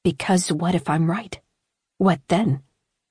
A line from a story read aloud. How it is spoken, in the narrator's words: a voice rasped at him through the intercom